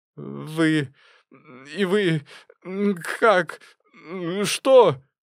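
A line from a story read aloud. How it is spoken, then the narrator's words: Strained, halting. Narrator (Russian): выдавил из себя он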